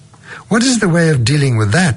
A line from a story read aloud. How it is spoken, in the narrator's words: asks Dr